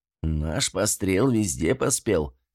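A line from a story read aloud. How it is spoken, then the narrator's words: Laughing old man. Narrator (Russian): старик рассмеялся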